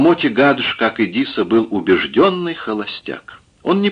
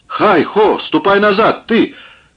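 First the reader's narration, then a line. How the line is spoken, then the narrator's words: Shouting after someone. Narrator (Russian): кричал ему вслед Чихан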